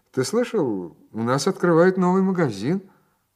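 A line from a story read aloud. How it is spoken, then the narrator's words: Cheerful conversational remark. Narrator (Russian): Я было попробовал втянуть его в разговор, весело заметив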